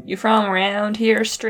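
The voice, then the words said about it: Old-timey American western accent. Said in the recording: “that like old-timey American accent”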